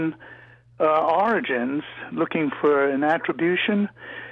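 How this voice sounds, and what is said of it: Usual voice. Nothing is said of it.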